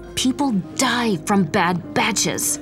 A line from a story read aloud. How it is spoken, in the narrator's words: she hissed